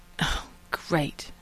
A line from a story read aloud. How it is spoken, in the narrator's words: Rodney sighed